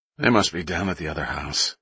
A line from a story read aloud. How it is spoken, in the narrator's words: he mumbled